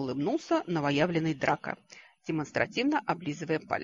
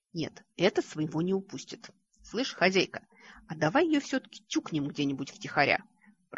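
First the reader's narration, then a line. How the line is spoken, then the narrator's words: Hissing. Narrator (Russian): Прошипела левая полушария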